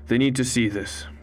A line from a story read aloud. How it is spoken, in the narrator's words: Benoit said firmly